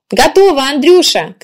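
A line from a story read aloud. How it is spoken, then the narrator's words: Shouted. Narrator (Russian): крикнула Людмила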